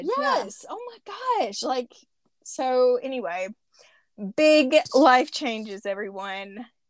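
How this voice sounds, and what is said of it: Out of breath. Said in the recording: “I'm like out of breath. I kind of worked up talking about it.”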